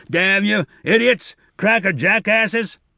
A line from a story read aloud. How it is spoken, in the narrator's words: the engineer shouted after them